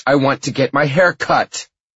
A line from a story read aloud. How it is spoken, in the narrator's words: she yells